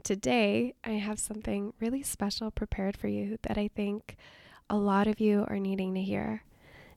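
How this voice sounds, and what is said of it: Scratchy, hoarse sick voice. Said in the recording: “my voice has a nice, suave phone operator scratchiness to it because I'm sick”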